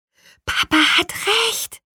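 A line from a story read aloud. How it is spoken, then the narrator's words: Whispered. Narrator (German): flüsterte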